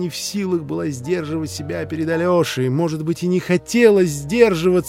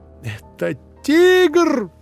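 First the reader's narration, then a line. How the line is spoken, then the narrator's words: Screamed. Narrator (Russian): завопила Катерина Ивановна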